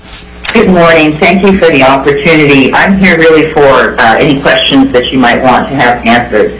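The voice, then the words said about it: Slightly off voice from cold. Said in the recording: “I'm struggling with a little bit of a cold, so I apologize for my voice being a little bit off”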